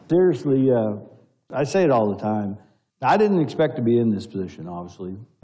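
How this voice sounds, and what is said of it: Speaker's own strong accent. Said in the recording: “I'd like to ask them if they can understand my accent”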